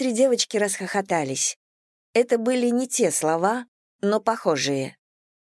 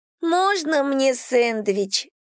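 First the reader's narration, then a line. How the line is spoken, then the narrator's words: Purring question after laughter. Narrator (Russian): спросила она, когда смех перешел в мурлыканье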